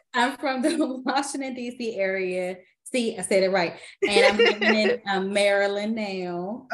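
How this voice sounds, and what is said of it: Washington, D.C. accent. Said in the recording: “everybody always talk about my D.C. accent.”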